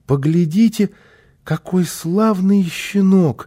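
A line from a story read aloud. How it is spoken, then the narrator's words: Joyful child's exclamation. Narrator (Russian): радостно воскликнул малыш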